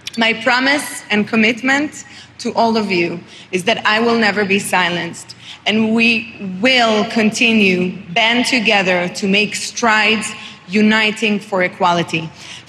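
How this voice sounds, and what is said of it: Israeli-accented English. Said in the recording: “Is she French? ... She's Israeli. ... I couldn't place the accent.”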